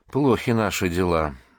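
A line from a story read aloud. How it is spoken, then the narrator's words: Grim. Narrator (Russian): мрачно проговорил он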